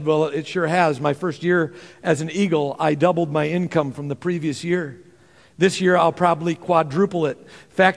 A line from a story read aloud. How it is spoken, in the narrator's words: he says